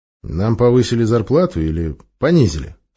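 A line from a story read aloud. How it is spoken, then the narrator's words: Wry snort. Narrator (Russian): хмыкнул тринадцатый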